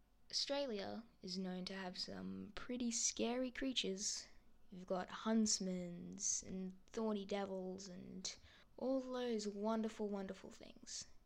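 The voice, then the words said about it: Australian accent. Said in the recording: “I am from Australia, if you couldn't catch that from my accent.”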